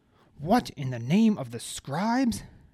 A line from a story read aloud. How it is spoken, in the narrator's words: Hellar cried